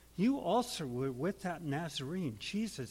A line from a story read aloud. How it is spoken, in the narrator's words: she said